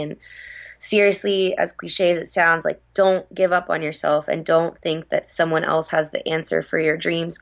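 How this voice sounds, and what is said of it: Raspy voice. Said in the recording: “my raspy voice today”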